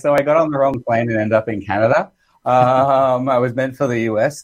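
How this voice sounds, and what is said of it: Australian accent. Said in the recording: “I'm originally from Australia. You might tell that from my accent. ... I thought you were just chewing something funny.”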